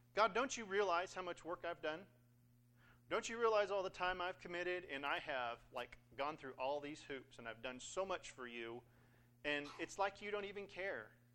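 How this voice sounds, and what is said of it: Sorority girl voice. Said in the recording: “I've got my, like, sorority girl voice for some reason this morning.”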